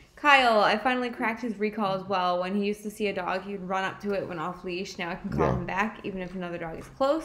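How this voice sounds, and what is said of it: Strained, hoarse voice. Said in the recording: “I feel like I'm losing my voice. ... You are. ... I'm yelling at you too much.”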